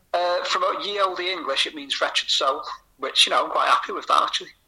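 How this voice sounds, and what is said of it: Northwestern English accent. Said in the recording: “especially said in a northwestern accent”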